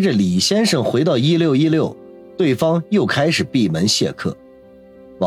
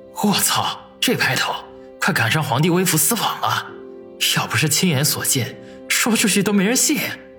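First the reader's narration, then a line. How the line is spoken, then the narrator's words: Inner grumbling. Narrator (Chinese): 心中不禁嘀咕了一句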